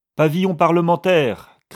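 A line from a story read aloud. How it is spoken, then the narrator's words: Shouted. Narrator (French): cria Silver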